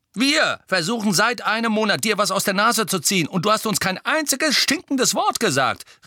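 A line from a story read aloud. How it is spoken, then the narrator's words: Called out. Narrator (German): rief George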